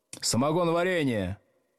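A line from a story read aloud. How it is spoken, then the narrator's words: Shout. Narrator (Russian): крикнул Старков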